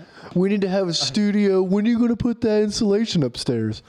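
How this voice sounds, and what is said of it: Imitates another person's voice. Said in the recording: “I do a good impression, huh?”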